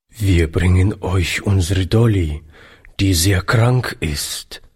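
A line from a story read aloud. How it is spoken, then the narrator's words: Trembling voice. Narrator (German): sagte Oliver mit zitternder Stimme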